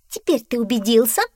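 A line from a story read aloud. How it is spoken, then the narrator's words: Cat exclaiming. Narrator (Russian): воскликнула кошка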